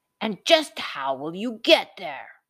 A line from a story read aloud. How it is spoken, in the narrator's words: growled the troll